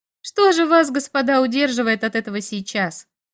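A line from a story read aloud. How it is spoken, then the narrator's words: Sarcastic short laugh. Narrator (Russian): хохотнула язвительно Дейнстер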